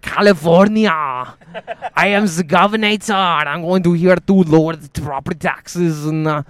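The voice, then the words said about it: Austrian-accented Schwarzenegger impression. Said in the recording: “has a fucking Austrian accent”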